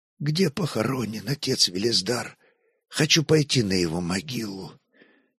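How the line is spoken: Hoarse, suppressed trembling question. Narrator (Russian): Стараясь совладать с дрожью в голосе, Святослав хрипло спросил

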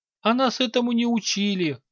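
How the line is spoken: Timid squeak. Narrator (Russian): рискнул пискнуть эльф

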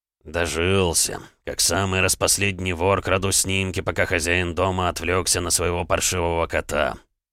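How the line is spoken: Mumbling. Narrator (Russian): бормотал граф

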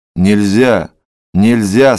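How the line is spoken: Plain. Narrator (Russian): сказал он

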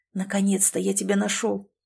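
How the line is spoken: Breathed out. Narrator (Russian): выдохнул

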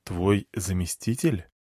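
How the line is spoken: Quiet question. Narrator (Russian): Тихо поинтересовался

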